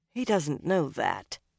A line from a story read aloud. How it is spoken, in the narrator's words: Nynaeve said flatly